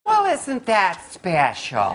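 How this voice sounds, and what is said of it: Uptight church lady character voice. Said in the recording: “in my best church lady voice... Dana Carvey's character, the church lady from SNL, the uptight woman who thought everyone was a sinner”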